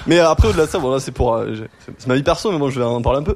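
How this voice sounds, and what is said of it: Southern French accent. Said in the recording (French): “il a l'accent ... j'ai l'accent du sud”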